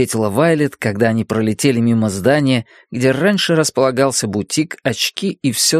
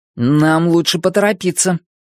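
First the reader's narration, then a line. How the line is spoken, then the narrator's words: Boy remarking. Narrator (Russian): заметил мальчик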